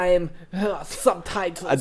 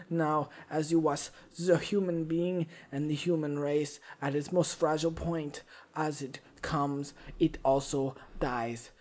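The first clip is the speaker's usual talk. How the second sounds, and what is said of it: Swedish-German-sounding accent, imitates another person's voice. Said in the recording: “I don't know what this accent is. ... It's like Swedish German. ... It's my Werner Herzog.”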